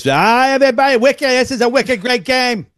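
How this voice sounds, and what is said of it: Poor put-on Boston accent. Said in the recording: “That was a terrible, terrible Boston accent”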